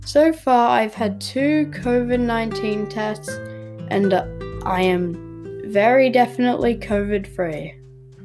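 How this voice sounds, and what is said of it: Slightly sick-sounding voice. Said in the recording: “Sorry if I sound a bit sick today.”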